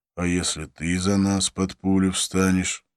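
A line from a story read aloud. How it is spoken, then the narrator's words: Plain. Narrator (Russian): ответил Абдулла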